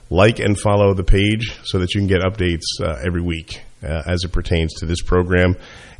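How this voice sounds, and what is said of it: Voice sounding off, unwell. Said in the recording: “I want to apologize for the way My voice is sounding today. Allergies kicked in this week”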